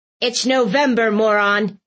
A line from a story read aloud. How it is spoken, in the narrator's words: Aunt Tilly barked